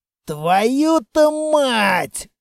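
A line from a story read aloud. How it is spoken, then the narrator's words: Hissed. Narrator (Russian): прошипел Строгов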